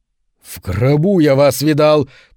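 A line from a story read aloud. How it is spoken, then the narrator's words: Growling. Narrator (Russian): прорычал Шеридан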